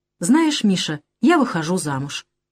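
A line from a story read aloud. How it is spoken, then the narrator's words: Flat matter-of-fact voice. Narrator (Russian): Элен будничным голосом сказала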